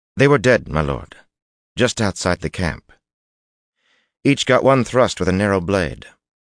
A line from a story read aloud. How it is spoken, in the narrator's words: Bashir's head jerked around, murder on his face, and the younger man quickly added